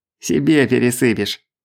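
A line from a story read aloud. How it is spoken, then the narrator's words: Chuckle. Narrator (Russian): хохотнул Шамшулов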